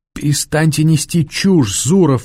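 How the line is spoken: Sobbing. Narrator (Russian): всхлипнула Варя

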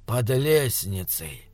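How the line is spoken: Muffled, flat. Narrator (Russian): сказал Декс глухо

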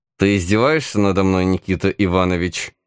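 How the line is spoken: Growled through clenched teeth. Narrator (Russian): Сквозь зубы прорычал государь

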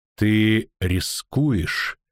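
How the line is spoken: Slow speech. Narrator (Russian): медленно проговорила Ненеке

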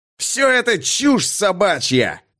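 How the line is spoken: Roar. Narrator (Russian): проревел Амаха

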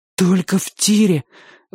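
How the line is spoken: Strained, breathless. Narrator (Russian): выдавил Чик, застрявший в груди воздух

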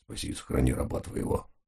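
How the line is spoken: Muttering under breath. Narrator (Russian): бормоча под нос

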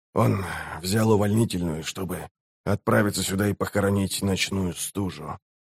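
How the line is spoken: Quiet. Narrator (Russian): тихо добавил он

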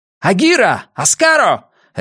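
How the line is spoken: Sudden bark, foreign language. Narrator (Russian): рявкнул я внезапно по-кириненски

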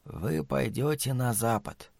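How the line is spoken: Whisper. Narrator (Russian): прошептала матушка Абагейл

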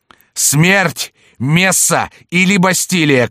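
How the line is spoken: Shouting. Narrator (Russian): кричал он

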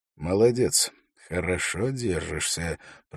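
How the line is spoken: Said quietly. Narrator (Russian): произнес он тихо

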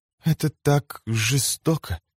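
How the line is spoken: Moaning. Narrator (Russian): простонала она

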